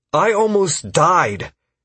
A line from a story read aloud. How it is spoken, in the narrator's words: Caius exclaimed